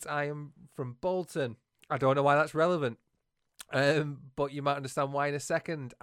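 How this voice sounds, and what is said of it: Northern English accent. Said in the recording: “as you can probably tell from my horrendous northern accent.”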